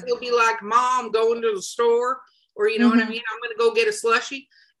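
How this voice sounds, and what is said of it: Put-on Southern US accent. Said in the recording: “I'm sorry I did a southern accent for that, but I lived in Florida a really long time”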